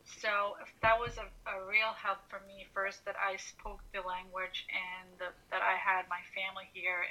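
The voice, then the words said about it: American accent. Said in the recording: “that's why I have uh, an American accent”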